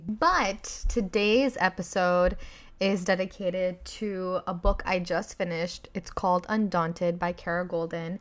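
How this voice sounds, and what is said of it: Slightly raspy voice. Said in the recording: “If my voice sounds raspy ... I was screaming for a long time ... if my voice is a little raspy,”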